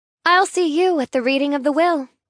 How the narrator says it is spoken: I chirp

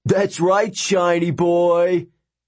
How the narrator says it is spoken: the prince yelled after him

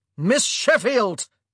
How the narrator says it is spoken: he roared

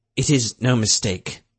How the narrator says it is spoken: Rutherford said bitterly

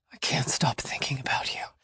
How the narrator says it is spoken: he whispered

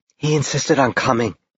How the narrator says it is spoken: Brittany whispered

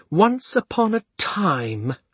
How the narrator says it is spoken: she said scornfully

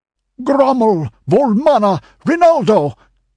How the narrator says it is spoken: exclaimed Publius, the high counselor

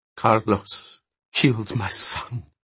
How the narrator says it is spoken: he said in a whisper

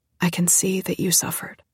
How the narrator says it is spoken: she said quietly

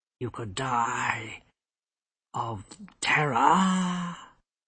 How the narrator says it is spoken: the hood intoned, but there was a slight tremor of uncertainty

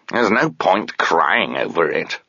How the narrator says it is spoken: the cat said harshly

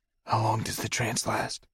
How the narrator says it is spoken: Marco whispered

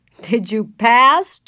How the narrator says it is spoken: Joe echoed, laughing

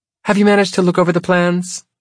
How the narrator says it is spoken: She asks brightly

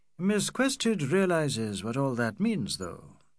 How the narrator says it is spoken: said McBride sadly

